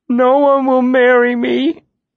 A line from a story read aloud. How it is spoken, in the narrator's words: El sobbed